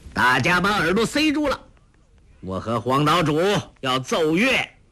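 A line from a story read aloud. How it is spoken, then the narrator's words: Shouting. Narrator (Chinese): 欧阳锋叫道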